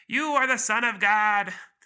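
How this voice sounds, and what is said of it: Demon character voice. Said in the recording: “That's my demon voice.”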